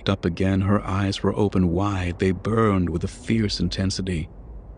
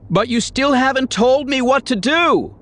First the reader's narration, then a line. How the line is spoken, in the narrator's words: She shouted after him